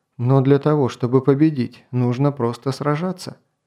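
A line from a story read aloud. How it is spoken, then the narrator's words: Calm. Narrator (Russian): сказал Кай тем же спокойным тоном, каким говорил и раньше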